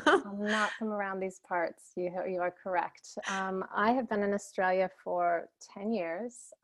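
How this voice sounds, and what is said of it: Non-local accent. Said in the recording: “I sense that accent is not from around here.”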